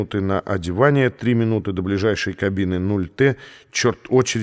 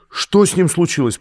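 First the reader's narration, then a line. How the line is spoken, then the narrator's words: Shrill, terrified scream. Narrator (Russian): пронзительно и страшно крикнула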